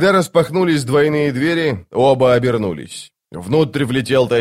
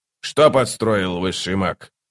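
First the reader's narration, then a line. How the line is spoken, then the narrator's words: Cold inquiry. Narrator (Russian): Холодно осведомился он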